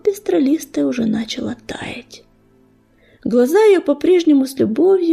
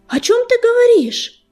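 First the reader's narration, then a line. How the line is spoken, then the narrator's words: Loud shout. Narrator (Russian): громко крикнула Огнезвезд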